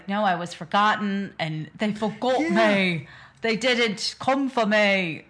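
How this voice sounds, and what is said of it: Deliberately bad put-on accent. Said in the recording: “This is me just doing a terrible accent.”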